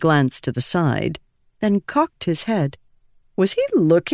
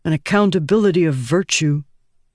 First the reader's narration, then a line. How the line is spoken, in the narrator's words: he grunted